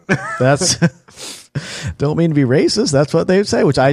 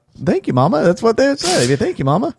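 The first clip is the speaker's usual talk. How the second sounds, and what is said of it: Put-on accent. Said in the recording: “You just pulled out that accent.”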